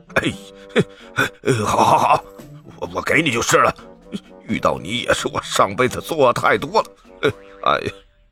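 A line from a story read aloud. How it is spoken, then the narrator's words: Grudging, resigned. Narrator (Chinese): 流浪商人……一咬牙，一跺脚，就说道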